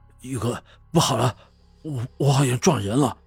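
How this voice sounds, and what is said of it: Hurried, urgent panicked voice. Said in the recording (Chinese): “用一种很是急促的声音说”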